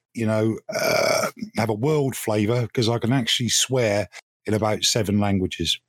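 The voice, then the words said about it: Speaks with a noticeable accent. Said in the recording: “It's the accent. That, that's all it is. It's, it's the accent.”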